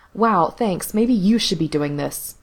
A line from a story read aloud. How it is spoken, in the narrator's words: he snapped